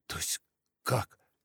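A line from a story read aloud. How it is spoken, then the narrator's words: Frightened question. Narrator (Russian): испуганно спросила Снежана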